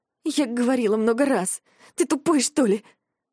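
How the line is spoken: Sobbing question. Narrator (Russian): Спрашиваю, всхлипывая

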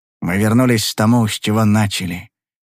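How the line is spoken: Displeased, blaming grumble. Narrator (Russian): проворчал недовольно окружной прокурор, как будто кругом все, кроме него, были виноваты в этом

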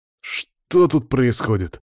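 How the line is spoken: Angry. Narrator (Russian): сердито спросил он

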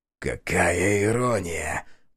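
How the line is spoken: Hoarse rasp. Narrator (Russian): прохрипел он

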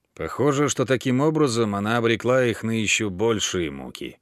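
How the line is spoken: Sigh. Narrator (Russian): вздохнул Джошуа

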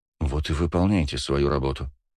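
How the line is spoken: Through gritted teeth. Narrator (Russian): процедил Мирон Александрович

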